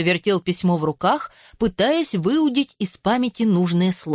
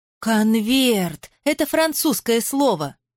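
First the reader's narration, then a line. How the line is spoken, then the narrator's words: Excited trembling voice. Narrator (Russian): Голос Хольгера взволнованно задрожал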